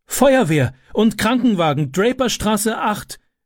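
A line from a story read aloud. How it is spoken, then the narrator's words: Calling out. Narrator (German): rief sie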